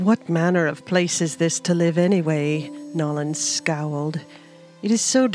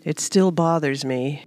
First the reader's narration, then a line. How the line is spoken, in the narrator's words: Ro said sadly